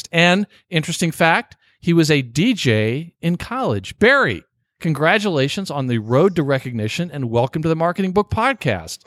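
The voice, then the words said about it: Radio DJ style voice. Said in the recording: “I'm really trying to do my best DJ voice”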